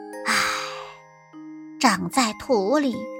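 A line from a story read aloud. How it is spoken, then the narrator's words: Sad, sighing. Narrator (Chinese): 邻居一脸悲伤的……唉声叹气的说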